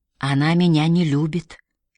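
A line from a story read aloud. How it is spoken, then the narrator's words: Quiet. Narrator (Russian): тихо сказала Мэри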